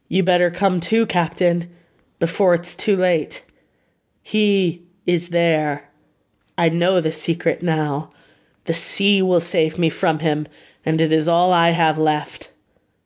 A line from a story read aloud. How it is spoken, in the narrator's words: His horror turned to despair, and in a steady voice he said